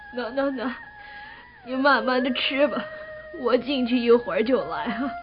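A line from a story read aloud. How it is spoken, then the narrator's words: Tearful, recovering composure. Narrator (Chinese): 哭了一阵，阿金擦干眼泪 说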